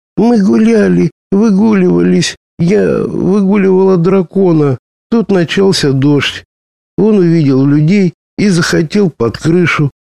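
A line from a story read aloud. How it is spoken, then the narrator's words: Stammering babble. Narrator (Russian): лепетала, заикаясь, Шаллах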